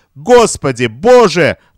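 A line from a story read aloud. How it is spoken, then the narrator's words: Female exclamation. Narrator (Russian): воскликнула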